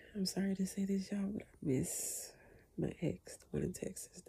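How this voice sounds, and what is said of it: Soft, lowered whispering voice. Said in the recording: “I'm whispering ... I try to lower my voice ... normally I talk louder, so I try to soften my voice”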